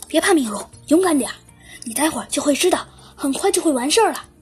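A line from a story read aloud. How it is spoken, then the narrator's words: Quiet, soft. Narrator (Chinese): 丁丁小声的对米卢说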